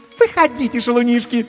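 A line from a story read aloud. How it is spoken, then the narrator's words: Languid squeal. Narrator (Russian): томно взвизгнула Катисса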